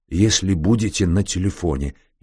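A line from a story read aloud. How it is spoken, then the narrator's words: Barely forced out. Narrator (Russian): еле выдавил он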